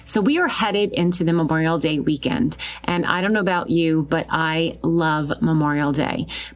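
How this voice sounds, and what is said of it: Long Island accent. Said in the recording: “especially where I am out here in Long Island. I know I said it right with my accent.”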